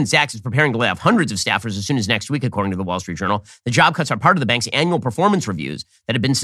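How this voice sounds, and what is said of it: Usual voice. Nothing is said of it.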